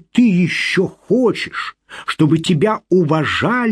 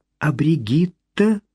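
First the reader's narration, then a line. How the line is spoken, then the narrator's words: Quiet voice. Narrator (Russian): тихо произнесла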